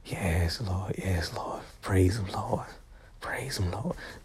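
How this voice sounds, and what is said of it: Old-school whispery preacher voice. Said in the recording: “my old school Reverend Whisper voice”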